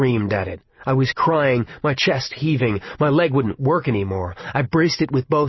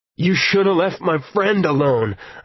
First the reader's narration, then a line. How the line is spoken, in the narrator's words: I tried to yell, but all that would come out was a tearing, wounded gasp